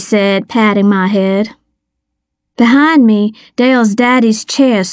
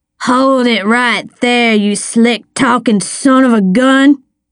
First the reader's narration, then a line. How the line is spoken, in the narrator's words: he slurred